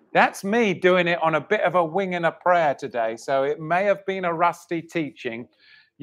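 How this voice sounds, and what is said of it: Dry, strained voice. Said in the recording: “My voice is dry because I'm not properly mic'd up and I've had to yell”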